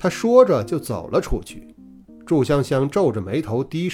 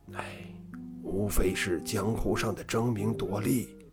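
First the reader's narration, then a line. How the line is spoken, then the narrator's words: Hushed, lowered voice. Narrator (Chinese): 掌柜的压低了声音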